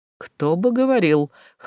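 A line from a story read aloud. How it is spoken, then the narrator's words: Scoffing snort. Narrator (Russian): хмыкнул Далтон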